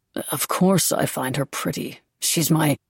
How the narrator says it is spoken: Beau muttering

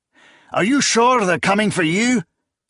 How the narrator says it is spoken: he shouted over the growing roar

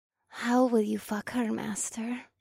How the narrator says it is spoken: Morgana asked in a soft voice

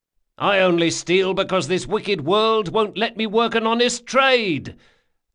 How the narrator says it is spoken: Carlo cried

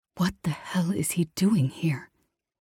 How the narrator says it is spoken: Mia hissed

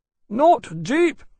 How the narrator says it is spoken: Granby shouted, from where they worked to pad the gashes

